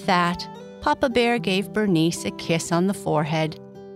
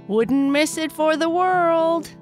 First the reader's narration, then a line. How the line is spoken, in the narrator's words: Kai Kai yelled as he flew up into the sky